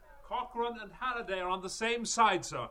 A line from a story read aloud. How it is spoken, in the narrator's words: Stephen cried